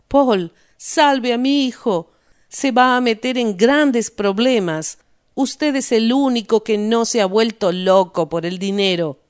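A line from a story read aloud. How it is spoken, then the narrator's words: Shouting. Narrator (Spanish): Se arrojó a los pies de Paul Rost y gritó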